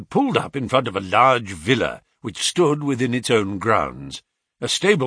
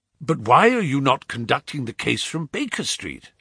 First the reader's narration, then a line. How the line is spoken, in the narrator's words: I asked